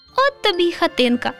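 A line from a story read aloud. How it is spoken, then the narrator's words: Laughing. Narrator (Ukrainian): засміялося руденьке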